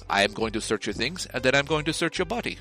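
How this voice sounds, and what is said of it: Attempted light foreign accent. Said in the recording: “in barely accented English ... I can't do the accent, but I'm going to try anyway”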